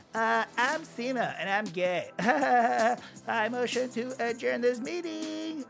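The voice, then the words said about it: Imitates another person's voice. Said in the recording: “my impression of him”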